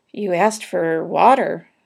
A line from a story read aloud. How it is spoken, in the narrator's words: said Lurvy meekly